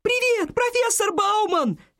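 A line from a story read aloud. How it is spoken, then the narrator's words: Group shout. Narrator (Russian): крикнули они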